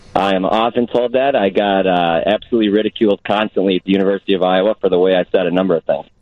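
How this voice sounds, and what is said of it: Classic Chicago accent, nasally long A. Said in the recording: “got the classic ... Chicago accent ... it's a nasally long A”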